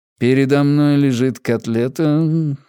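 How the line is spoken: Purring, contented. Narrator (Russian): замурлыкал

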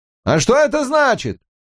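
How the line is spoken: Shouted. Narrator (Russian): прокричал Гарриман

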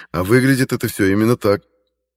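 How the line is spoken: Laughing. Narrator (Russian): рассмеялся я

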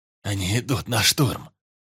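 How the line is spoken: Hoarse shout. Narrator (Russian): хрипло прокричал Калаврат

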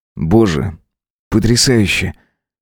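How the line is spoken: Quiet speech. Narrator (Russian): тихо проговорил Макс

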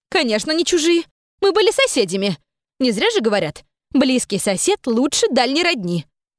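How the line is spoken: Indignant reply. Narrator (Russian): возмущенно ответила мама

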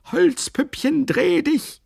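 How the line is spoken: Screamed in terrible voice. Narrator (German): Der schrie mit fürchterlicher Stimme immerfort

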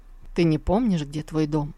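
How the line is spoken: Question. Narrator (Russian): спросил Тантайдзинь

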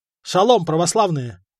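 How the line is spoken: Cheerful. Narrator (Russian): бодро заявил он

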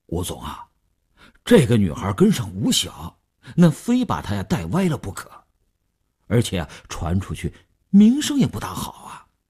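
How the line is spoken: Hesitant, reluctant. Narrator (Chinese): 李大公欲言又止，李大公才说

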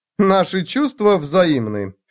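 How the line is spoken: Scornful snort. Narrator (Russian): фыркнула она

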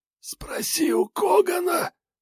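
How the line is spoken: Dying wheeze. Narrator (Russian): Просипел он на последнем издыхании

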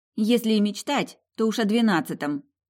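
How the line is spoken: Muttering under breath, woman. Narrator (Russian): буркнула под нос моя соседка

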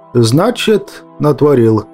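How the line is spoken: Muffled, dull. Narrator (Russian): глухо произнес я

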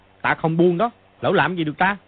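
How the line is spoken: Angry shout. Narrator (Vietnamese): Mã Quan Tá cũng tức giận mà quát lên

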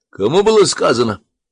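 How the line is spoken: Sharp shout. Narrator (Russian): прикрикнул старшой

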